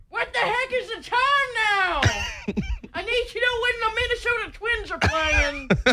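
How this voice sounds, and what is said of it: Imitates another person's voice, yelling. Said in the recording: “can I do an impression of you yelling at the computer? ... like old man yells at cloud”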